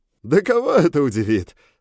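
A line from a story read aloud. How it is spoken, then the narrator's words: Loud guffaw. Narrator (Russian): захохотал Адриан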